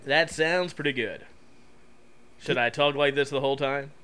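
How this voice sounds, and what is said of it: Exaggerated deep radio announcer voice. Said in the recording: “Is this my radio voice? Every douchebag has a radio voice. Is this my radio voice?”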